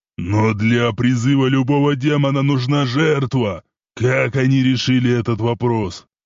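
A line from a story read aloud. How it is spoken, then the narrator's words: Thundering indignant voice. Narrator (Russian): прогремел возмущенный голос Исмаила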